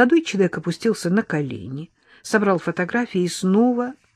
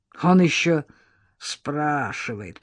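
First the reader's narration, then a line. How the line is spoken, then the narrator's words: Creaky old voice. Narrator (Russian): проскрипел старик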